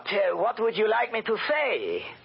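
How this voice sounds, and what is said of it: Impersonation of Lee. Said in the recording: “my impersonation of Lee”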